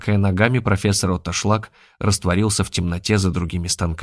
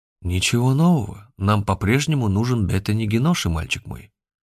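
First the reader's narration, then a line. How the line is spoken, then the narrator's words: Calm. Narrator (Russian): спокойно произнес Захар Сергеевич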